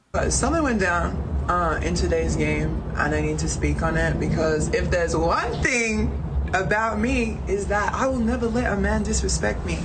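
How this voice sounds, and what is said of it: Slight Australian accent. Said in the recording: “she's from Australia ... she got a little bit of an accent, but you can follow what she's saying here”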